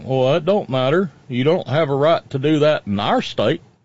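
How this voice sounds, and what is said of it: Put-on redneck accent. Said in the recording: “I just do the redneck accent”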